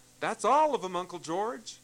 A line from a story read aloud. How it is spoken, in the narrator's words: He waved a cheery greeting and called out